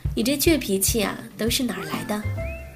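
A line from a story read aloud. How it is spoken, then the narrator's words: Laughing heartily. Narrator (Chinese): 他哈哈大笑……说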